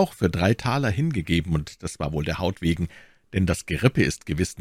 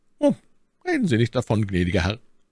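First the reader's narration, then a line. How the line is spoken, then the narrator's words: Plain reply, servant. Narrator (German): antwortete der Bediente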